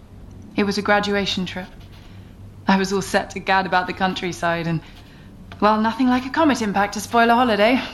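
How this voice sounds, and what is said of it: North London English accent. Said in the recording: “I'm hearing a bit of North London, Camden... Hampstead, actually.”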